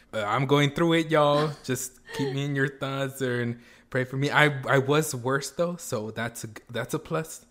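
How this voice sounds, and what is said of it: Hoarse, slightly weird-sounding voice. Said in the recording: “I might sound a little bit weird ... my voice may be a little bit hoarse.”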